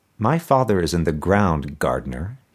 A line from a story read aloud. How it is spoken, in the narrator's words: he said finally